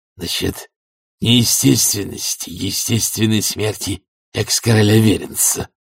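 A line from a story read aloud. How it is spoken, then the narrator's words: Hoarse breathy exhale. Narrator (Russian): хрипло выдохнул он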